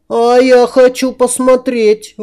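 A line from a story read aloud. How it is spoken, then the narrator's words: Indignant. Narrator (Russian): возмущенно топнула ногой принцесса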